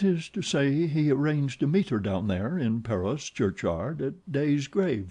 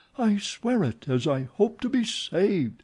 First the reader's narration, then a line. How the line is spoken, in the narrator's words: exclaimed the old woman, who this time seemed to be incensed